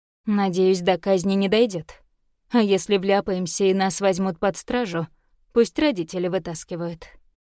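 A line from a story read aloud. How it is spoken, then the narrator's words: Grim declaration. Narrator (Russian): заявил Дейш мрачно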